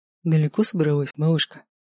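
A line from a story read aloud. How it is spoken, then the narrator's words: Soft purr. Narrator (Russian): Мягко промурлыкал он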